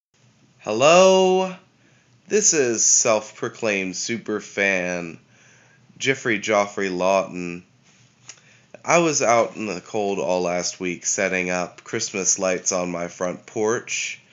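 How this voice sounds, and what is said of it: Sick, under-the-weather voice. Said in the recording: “as you may be able to hear from my voice, I'm feeling a bit under the weather”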